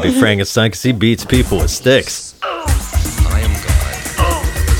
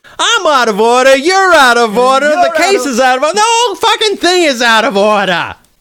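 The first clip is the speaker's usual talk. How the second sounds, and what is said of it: Imitates another person's voice. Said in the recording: “my Al Pacino impression.”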